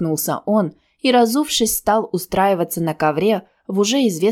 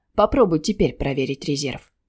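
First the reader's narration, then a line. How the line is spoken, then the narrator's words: Quiet suggestion. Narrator (Russian): негромко предложил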